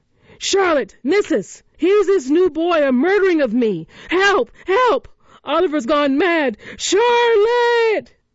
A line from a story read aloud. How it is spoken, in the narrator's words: Noah's shouts